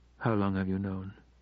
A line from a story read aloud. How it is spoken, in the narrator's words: asked Hannah quietly